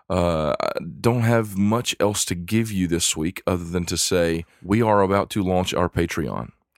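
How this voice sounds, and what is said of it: Very deep congested voice. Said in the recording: “my voice sounds ultra deep today, all that bass... I have a terrible cold... all this mucus... my voice sounds a little off”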